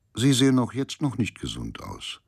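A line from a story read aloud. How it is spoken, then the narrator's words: Very calm. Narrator (German): sagte ganz ruhig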